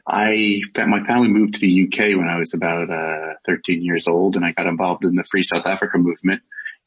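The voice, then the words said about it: American accent. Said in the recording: “as you can probably tell from my accent, I'm not South African, I'm American”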